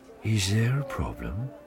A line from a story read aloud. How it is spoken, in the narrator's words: He asked quietly